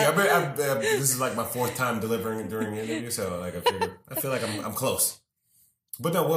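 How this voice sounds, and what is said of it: Usual voice. Nothing is said of it.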